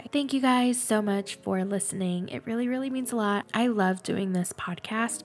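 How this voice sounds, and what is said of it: Congested, very nasal voice. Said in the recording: “I am congested right now, so I'm sorry if my voice sounds super nasally. Well, it sounds nasally anyway, but I feel like it sounded extra nasally today.”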